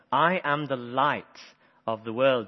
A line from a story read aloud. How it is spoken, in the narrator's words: Jesus says